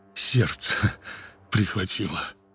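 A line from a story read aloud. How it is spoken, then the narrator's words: Weak voice. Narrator (Russian): он ... слабым голосом сказал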